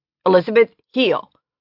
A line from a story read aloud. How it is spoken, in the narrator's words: His voice was stern and harsh